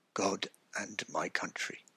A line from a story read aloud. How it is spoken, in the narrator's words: finally, faintly, he said